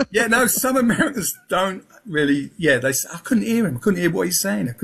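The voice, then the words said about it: Southeast London accent. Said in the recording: “I was brought up in Peckham, London, Southeast London. So that's my accent.”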